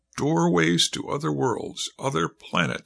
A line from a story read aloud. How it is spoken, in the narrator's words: said Joe, his voice expressing the awe he felt